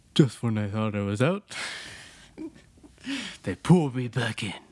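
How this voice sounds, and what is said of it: Imitates another person's voice. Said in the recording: “doing an impression of Silvio of Dante the impression. Doing impression of Al Pacino.”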